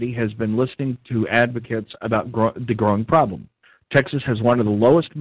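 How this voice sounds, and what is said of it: Usual voice. Nothing is said of it.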